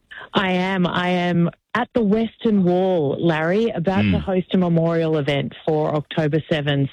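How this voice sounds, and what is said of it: Distinctive Australian accent. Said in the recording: “I can't quite pick up the accent. ... Because it's very distinctive. ... Australia”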